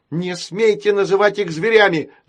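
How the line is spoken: Shout. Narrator (Russian): закричала она

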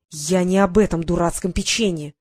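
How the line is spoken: Hissed into ear. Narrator (Russian): прошипел ей в ухо

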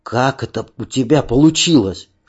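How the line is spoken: Whispered question. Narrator (Russian): шепотом спросил Аркадий

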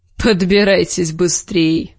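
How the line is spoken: Snorting. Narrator (Russian): хмыкнул Большой Джон

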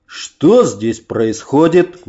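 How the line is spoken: Menacing question. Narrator (Russian): грозно спросил Муромец

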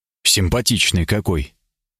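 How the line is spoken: Regretful sigh. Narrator (Russian): Я с сожалением вздохнул

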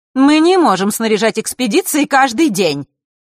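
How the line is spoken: Angry retort. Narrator (Russian): зло отозвалась Елена

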